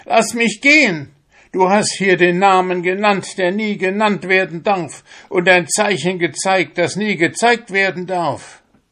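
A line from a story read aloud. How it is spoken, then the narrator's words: Shout. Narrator (German): schrie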